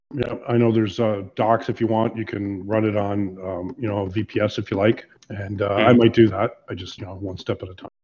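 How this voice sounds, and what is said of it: Congested voice from a cold. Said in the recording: “my voice is off. I got this cold that's going around.”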